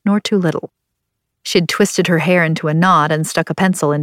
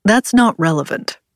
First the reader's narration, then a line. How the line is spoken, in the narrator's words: Cornelius said